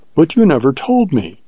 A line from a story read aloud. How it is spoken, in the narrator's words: she exclaimed with wonder and reproach